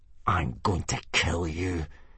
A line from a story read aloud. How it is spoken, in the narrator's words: hissed Snotlout at Hiccup